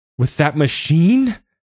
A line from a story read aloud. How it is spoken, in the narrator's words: She screeches